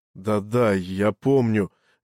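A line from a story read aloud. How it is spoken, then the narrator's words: Dazed, forced out. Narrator (Russian): не очень-то соображая, что с ним происходит, выдавил Джош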